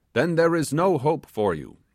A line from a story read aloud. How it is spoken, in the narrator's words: exclaimed the sailor